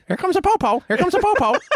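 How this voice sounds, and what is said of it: Squawking parrot voice impression. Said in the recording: “your impression of a lookout parrot. warning the Colombian cartel about the encroaching police ... Complete with a squawk.”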